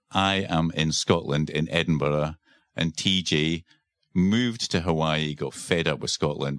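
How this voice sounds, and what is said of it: Scottish accent. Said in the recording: “my Scottish accent coming out”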